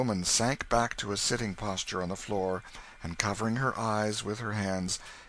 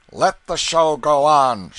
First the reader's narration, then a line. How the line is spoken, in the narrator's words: shouted Canty